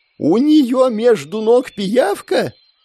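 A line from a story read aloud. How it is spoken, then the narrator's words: Young noblewoman's near-full shout. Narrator (Russian): Чуть ли не в полный голос закричала юная графиня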